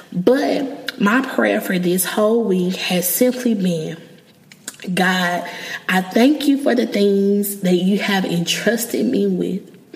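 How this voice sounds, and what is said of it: Emotional, moved voice. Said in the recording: “I'm getting emotional saying this”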